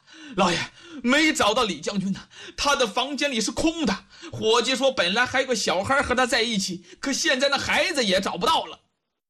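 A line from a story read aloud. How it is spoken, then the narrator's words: Breathless shouting. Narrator (Chinese): 狄春气喘吁吁……嚷啊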